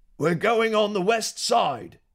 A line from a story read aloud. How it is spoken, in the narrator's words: he yelled